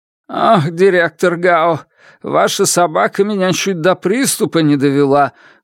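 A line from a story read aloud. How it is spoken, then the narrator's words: Breathless, shaken. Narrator (Russian): выдохнул Лун, хватаясь за сердце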